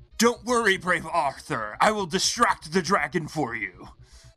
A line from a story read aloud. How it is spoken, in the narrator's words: yelled out